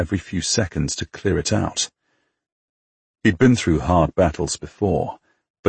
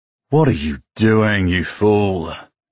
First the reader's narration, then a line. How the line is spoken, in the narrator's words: Hugh growled